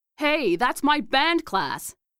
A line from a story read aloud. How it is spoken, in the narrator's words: protested, but her complaint was lost in the roar that erupted around us